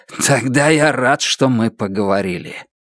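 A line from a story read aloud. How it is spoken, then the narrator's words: Hoarse. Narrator (Russian): Ордан хрипло сказал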